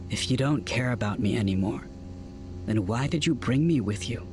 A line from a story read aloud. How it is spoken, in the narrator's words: He asked quietly